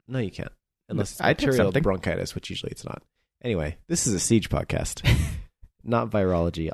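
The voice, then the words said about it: Bad, sick-sounding voice. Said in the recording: “sorry about my voice”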